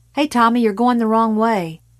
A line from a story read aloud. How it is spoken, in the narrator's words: Brent Gillian yelled